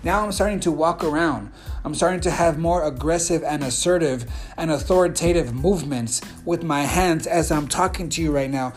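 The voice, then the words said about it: More energetic, assertive speaking voice. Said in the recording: “I'm going to even start to talk different, as you can hear in my voice. You can hear my energy changing.”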